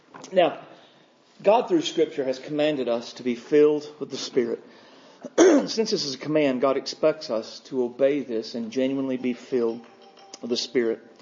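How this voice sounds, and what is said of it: Rough, gravelly, not fully recovered voice. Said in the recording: “my voice is still not fully recovered from it... to keep from sounding like Nick Nolte”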